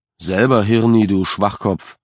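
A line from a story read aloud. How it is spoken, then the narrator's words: Bellowing. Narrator (German): Sean brüllen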